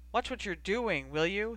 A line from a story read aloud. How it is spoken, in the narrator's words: he asked irritably